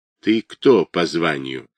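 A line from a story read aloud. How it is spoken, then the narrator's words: Sudden quiet question. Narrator (Russian): вдруг тихо спросил тот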